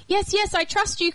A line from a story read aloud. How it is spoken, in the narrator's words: cried the man